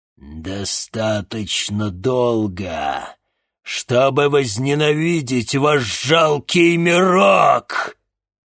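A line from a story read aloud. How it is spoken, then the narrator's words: Demonic roar through woman. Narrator (Russian): взревел демон губами Дианы Толоконниковой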